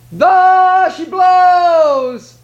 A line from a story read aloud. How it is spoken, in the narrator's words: cried